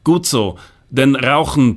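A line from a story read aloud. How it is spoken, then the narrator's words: Gruff blustering. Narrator (German): polterte er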